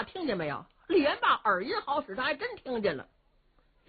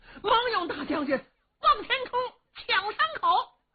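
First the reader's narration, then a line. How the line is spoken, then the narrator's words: Loud shouting. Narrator (Chinese): 靠山王杨林……高声喊嚷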